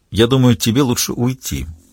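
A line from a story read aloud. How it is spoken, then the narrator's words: Quiet. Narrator (Russian): тихо произнесла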